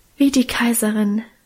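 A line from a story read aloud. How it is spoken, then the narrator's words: Soulful sigh. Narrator (German): seufzte Minchen gefühlvoll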